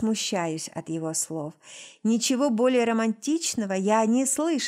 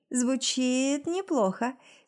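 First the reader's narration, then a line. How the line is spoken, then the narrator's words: Laughing reply. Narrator (Russian): смеясь отвечаю ему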